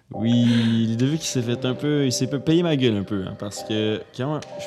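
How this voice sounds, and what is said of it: Put-on French accent. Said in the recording (French): “Tu vois, tu recommences avec l'accent français ... je fais un peu le ton français”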